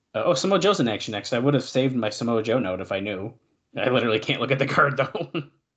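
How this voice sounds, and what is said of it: Congested, stuffy-nosed voice. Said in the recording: “my nose is stuffed up. I have a flu... I have a cold.”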